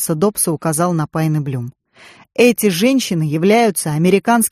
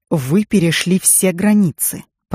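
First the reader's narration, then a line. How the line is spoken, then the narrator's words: Man growling. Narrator (Russian): прорычал мужчина в костюме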